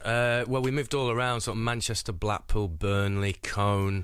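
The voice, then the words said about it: Mancunian accent. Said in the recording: “you've got a Mancunian accent”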